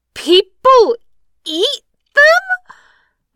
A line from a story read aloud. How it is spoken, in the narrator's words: Lammy exclaims in horror, startled clear out of her sadness